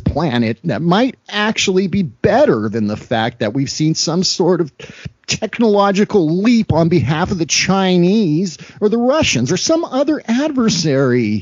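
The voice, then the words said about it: Imitates another person's voice. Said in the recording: “Damn good, damn good Marco Rubio impression ... that was not actually Marco Rubio speaking. That was ... doing a Marco Rubio impression.”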